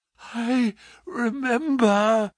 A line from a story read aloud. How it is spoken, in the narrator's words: Holmes gasped